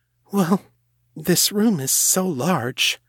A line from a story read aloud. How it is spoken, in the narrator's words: said, fidgeting nervously